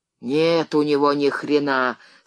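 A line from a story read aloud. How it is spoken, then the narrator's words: Relieved yet irritated. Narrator (Russian): с явным облегчением и уже раздраженно сказал второй голос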